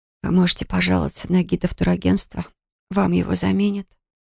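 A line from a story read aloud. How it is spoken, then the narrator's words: Drained, empty whisper. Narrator (Russian): прошептала я опустошенно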